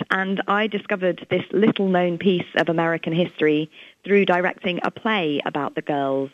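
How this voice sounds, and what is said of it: English accent. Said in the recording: “as you can tell, I'm from England, from my accent”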